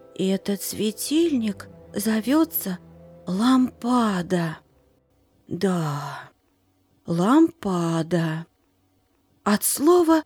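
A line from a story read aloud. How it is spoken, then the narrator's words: Quiet murmuring to herself. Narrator (Russian): тихо говорила сама себе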